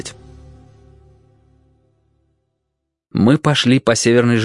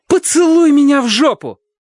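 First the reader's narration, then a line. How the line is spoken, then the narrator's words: Shouted. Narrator (Russian): Сэдди ... крикнула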